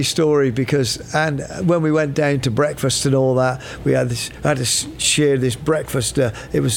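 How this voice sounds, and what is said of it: Usual voice. Nothing is said of it.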